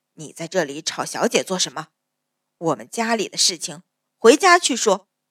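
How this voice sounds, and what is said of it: Aged old woman's voice. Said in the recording (Chinese): “苍老的声音”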